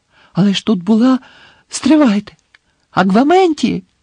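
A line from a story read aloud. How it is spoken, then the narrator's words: Exclaim. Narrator (Ukrainian): Знову вигукнув Гаррі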